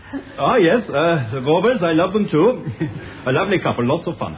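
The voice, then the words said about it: Glaswegian Scottish accent. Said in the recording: “I detect from your accent, sir, that you are not from round here... I am from Glasgow.”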